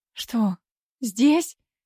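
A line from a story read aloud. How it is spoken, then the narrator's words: Frightened squeak. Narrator (Russian): испуганно пискнула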